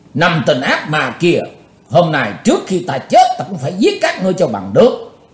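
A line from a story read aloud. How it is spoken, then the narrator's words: Loud shout. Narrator (Vietnamese): Chàng quát to một tiếng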